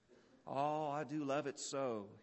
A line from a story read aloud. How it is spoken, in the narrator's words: he sighed